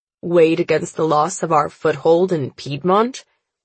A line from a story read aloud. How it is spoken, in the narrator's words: Father scoffs